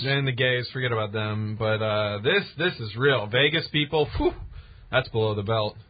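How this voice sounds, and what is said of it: Sarcastic delivery. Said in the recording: “I'm being sarcastic. ... I don't know if that's a time for sarcasm.”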